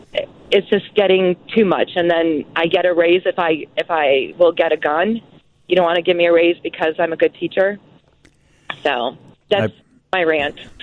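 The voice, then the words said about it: Emotional, upset voice. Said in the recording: “I can hear the emotion in your voice”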